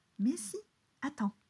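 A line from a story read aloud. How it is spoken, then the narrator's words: Plain. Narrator (French): dit Samuel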